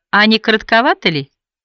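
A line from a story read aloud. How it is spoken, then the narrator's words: Friendly tone. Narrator (Russian): сказала вполне дружелюбным тоном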